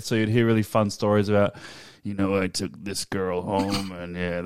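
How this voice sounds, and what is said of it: Imitates another person's voice. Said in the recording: “that's my Jack Nicholson impersonation.”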